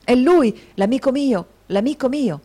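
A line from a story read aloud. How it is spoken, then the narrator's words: Exclaimed. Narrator (Italian): la voce del signor Crummles esclamare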